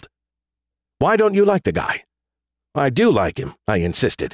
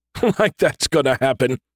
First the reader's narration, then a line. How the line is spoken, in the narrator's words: he chuckled